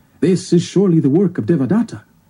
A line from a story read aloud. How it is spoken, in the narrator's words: One exclaimed